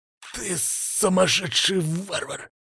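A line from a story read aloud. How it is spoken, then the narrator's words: Growling. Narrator (Russian): прорычал Тамай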